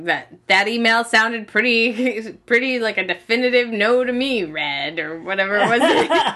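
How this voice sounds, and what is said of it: Imitates another person's voice. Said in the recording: “That's my Mickey imitation. ... It was good.”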